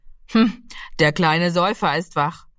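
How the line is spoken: Calling out. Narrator (German): rief er

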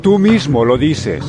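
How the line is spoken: Plain answer. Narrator (Spanish): respondió

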